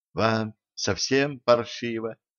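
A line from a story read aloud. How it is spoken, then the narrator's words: Whispered question. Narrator (Russian): шепотом спросила Женька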